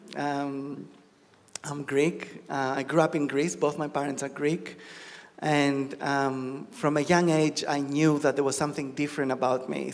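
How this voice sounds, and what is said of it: Greek accent. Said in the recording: “I'm Greek, if you didn't guess from my weird accent”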